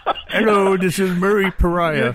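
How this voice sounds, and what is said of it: Imitates another person's voice. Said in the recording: “your Murray Pariah imitation? ... That doesn't sound anything like Murray Pariah.”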